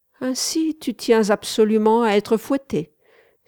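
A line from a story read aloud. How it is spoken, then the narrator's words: Disdainful exclamation. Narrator (French): s'écria-t-elle en rejetant dédaigneusement sa tête en arrière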